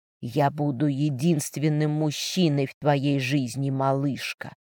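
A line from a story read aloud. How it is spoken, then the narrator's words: Whisper close to ear. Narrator (Russian): прошептала она почти мне на ухо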